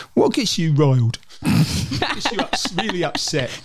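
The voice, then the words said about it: Impression of the co-host's voice. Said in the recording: “a well good impression of me”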